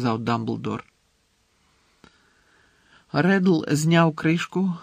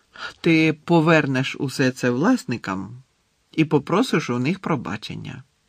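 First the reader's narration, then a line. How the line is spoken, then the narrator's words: Calm command. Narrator (Ukrainian): спокійно звелів Дамблдор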